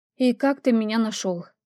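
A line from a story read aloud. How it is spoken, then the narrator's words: Sighing. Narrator (Russian): вздохнув, добавила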